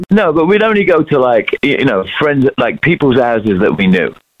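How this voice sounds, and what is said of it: British accent. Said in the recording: “he has a British accent.”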